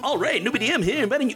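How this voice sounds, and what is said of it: Attempted announcer radio voice. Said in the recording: “Best radio voice? ... Oh wow, that's terrible.”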